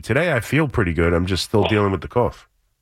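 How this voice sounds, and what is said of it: Slightly raspy voice. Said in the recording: “my throat's a little raspy”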